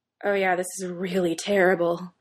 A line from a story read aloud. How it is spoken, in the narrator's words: Styles chuckles